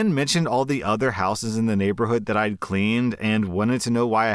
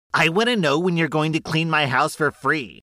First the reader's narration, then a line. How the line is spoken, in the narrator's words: She then asked me in the most entitled tone